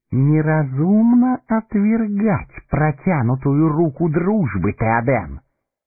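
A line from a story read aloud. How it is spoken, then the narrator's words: Soft. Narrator (Russian): мягко проговорил Саруман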